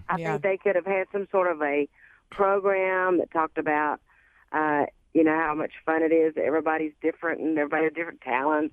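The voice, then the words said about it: Texan accent. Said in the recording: “that accent makes me miss home. Where are you from in Texas?”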